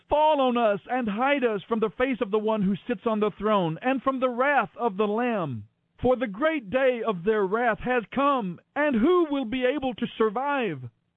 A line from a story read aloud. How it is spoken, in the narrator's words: And they cried to the mountains and the rocks